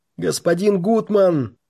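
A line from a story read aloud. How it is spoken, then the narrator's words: Shouted. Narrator (Russian): кричал сибиряк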